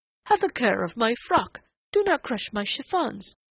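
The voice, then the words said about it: Quivering falsetto mimicry. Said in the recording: “He mimicked her in a quivering falsetto.”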